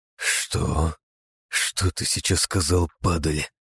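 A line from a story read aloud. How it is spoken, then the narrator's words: Hoarse wheeze. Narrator (Russian): хрипло просипел я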